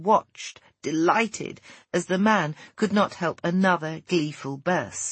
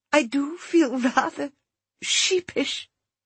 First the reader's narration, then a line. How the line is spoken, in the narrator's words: She pressed her lips together to prevent another gale of laughter, then said gently